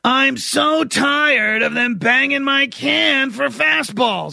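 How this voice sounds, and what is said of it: Oscar the Grouch impression. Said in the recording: “interviewing Oscar the Grouch ... Somebody who does a better impression than me. ... That was pretty good, man. ... oh, speak more, Oscar.”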